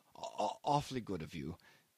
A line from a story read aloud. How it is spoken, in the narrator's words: he muttered